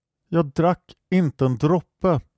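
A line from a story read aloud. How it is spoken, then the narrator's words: Plain. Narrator (Swedish): sa Jomran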